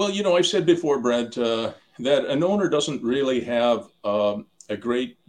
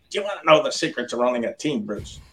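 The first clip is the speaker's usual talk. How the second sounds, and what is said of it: Put-on Chicago accent. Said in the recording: “in that Chicago Black, Blackhawks accent of his, his Chicago accent”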